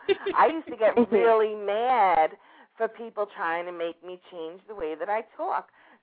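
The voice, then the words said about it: New York accent. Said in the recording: “you really need to change that accent ... I'm from New York”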